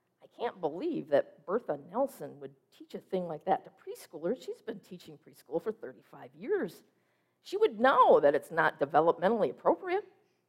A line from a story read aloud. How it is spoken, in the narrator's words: The pastor, greatly concerned, mumbled